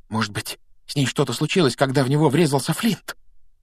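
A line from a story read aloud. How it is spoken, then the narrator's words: Whisper. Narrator (Russian): прошептал Симус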